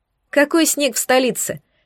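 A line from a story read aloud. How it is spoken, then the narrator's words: Giggling. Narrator (Russian): хихикнула я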